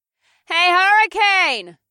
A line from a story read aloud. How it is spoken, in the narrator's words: I shouted, even though I still couldn't see him